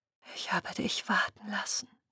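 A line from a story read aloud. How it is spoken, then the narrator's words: Whispered. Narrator (German): flüsterte sie der See zu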